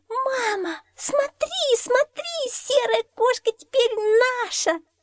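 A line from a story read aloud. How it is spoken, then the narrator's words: Girl squealing excitedly. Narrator (Russian): завопила девчонка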